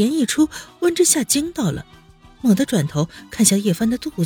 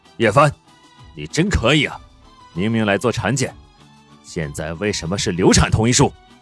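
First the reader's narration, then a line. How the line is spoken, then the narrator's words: Harsh stern rebuke. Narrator (Chinese): 宋子言 方才儒雅荡然无存，厉声的呵斥道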